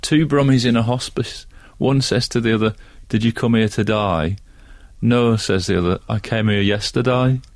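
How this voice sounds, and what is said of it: Put-on Birmingham (Brummie) accent. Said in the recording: “a similar Brummy accent joke. And I might even have a go.”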